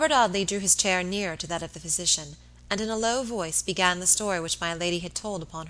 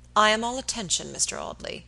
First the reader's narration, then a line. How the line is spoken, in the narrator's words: he said coldly